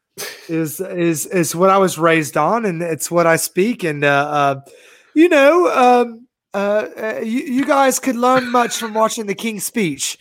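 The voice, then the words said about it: Refined voice, sounds a bit drunk. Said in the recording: “You sound a bit like a drunk Nick Aldis ... this is the voice of someone who is refined”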